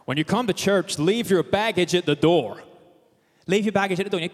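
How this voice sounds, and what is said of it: Put-on American Deep South accent. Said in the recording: “as I heard from a worship leader in the deep south of America, with apologies for the accent that's about to come”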